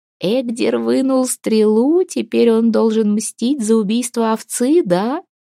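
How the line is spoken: Giggling whisper. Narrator (Russian): хихикая шептала Аста на ухо матери

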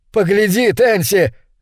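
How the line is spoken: Shout choking with laughter. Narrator (Russian): крикнул он, давясь от смеха

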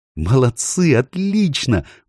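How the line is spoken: Exclamation. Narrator (Russian): воскликнула Джил

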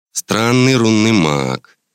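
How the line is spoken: Drawling. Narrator (Russian): протянул тот

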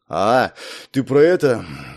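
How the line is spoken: Breathy exhale. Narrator (Russian): выдохнул я

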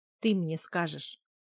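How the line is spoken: Growling. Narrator (Russian): рыкнула Гудрун

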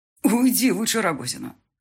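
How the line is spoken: Harsh bark. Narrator (Russian): рявкнул

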